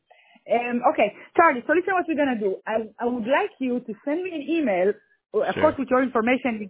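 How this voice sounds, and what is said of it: Non-native English accent. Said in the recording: “because of my accent, sometimes I think something and, you know, it sounds different.”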